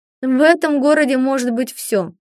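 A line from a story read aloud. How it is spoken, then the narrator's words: Man sighing. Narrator (Russian): вздохнул мужчина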